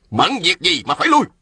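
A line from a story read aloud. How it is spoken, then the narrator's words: Sharp shout. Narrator (Vietnamese): Ôn Phương Ngô quát lên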